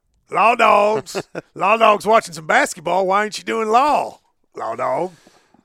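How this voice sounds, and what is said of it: Imitates another person's voice. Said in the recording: “Is that your Billy Gillespie impersonation?”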